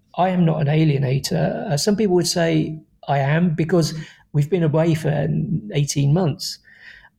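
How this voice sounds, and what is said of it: Teary, emotional voice. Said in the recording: “I'm getting a bit teary.”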